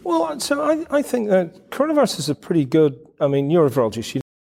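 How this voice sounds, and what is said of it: Pleasant foreign accent. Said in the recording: “with his nice, beautiful accent”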